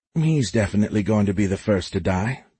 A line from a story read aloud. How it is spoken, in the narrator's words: Jennifer whispered to Les